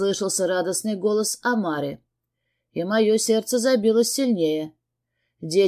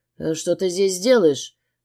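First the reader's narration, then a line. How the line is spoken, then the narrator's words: Cold. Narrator (Russian): выдал я холодно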